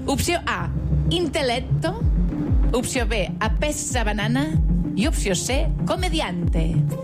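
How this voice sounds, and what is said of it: Put-on foreign accent. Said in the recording (Catalan): “Quin accent, ... m'encanta.”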